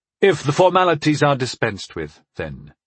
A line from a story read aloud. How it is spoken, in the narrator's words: I said in a bored tone of voice